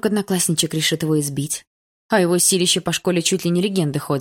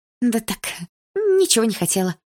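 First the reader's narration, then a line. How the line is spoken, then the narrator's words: Sweet voice. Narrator (Russian): милым голосом произнесла я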